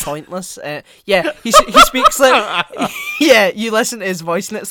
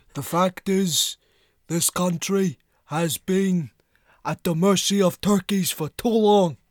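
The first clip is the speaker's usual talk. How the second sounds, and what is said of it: Imitates another person's voice. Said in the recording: “my Bernie Sanders impression”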